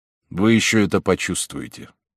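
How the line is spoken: Said coldly. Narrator (Russian): стражник лишь промолвил холодно

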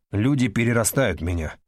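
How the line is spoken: Indifferent tone. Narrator (Russian): сказал он тем же безразличным тоном, каким можно сказать

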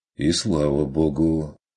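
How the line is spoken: Grumbled. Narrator (Russian): Буркнул Курт

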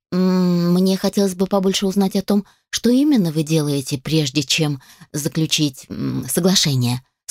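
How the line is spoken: Plain. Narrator (Russian): сказала она

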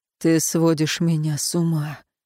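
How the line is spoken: Hoarse. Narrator (Russian): хрипло произнес Эруан

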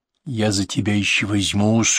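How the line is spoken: Grumble hiding a smile. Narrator (Russian): буркнул Петр, стараясь скрыть улыбку

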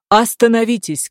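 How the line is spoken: Shouting. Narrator (Russian): кричал он

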